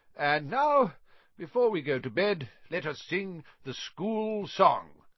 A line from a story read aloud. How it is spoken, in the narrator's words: cried Dumbledore